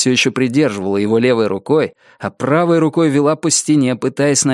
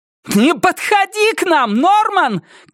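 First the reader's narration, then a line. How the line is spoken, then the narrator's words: Shouting woman. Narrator (Russian): крикнула Рози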